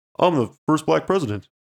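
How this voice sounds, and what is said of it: Obama impression. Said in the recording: “see my impression of Obama? ... That actually wasn't that bad. ... I can do Obama pretty well. ... Maybe like Obama first term.”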